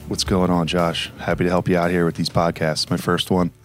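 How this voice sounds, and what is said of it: Silky smooth deep slow voice. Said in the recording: “silky smooth, deep voice, ... This ain't nighttime radio, brother. You can pick it up a little bit.”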